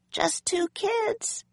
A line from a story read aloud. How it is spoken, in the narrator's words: Annie answered in a small voice